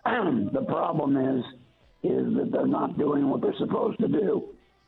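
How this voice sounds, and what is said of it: Weak, unclear failing voice. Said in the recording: “my voice just fell out... I could talk real clear a minute ago.”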